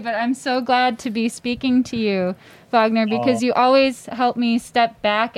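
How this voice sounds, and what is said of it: Teary, emotional voice. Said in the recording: “I'm kind of getting teary”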